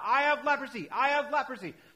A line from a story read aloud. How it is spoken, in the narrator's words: he had to shout out